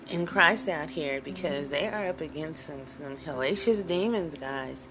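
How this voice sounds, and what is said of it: Strained, hoarse voice. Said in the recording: “I'm losing my voice today.”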